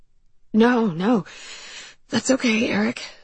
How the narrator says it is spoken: I breathed, trying to get out of bed so I didn't wake Justin

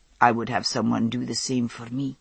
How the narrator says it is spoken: he said softly

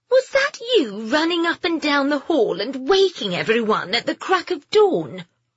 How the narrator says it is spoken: Lady Diana Sutton asked in a petulant voice

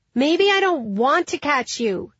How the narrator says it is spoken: shouted Philippa's boy

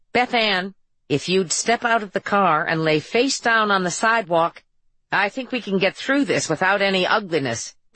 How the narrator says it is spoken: Ben said

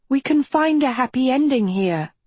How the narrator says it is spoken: she pleaded

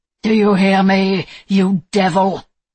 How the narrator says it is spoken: he shouted

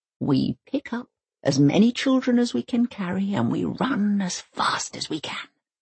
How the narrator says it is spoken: Granny whispered

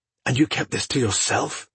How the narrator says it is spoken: Phelan hissed

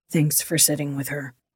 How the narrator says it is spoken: he muttered

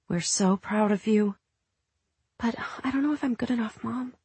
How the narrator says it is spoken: Devon whispered in the muffled dark of the garage

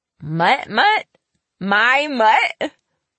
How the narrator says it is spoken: Lizzie cackled out a mouthful of cornflakes

